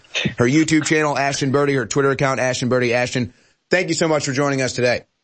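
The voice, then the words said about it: Slightly sore, strained voice. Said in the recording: “my voice is getting a little sore here ... it is just killing me”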